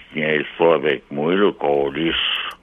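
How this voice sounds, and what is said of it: Imitates another person's voice. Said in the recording (French): “C'est une belle imitation, ça.”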